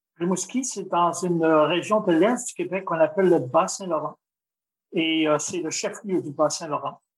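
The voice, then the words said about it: Québécois French accent. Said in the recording (French): “ton magnifique accent québécois”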